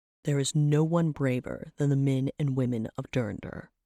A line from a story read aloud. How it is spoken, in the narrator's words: Trevok growled